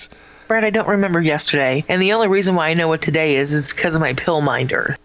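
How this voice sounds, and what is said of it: Imitates another person's voice. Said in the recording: “do my Shelly voice. ... here's my Shelly voice.”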